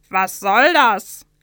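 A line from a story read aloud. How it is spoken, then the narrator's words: Calling out. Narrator (German): rief der andere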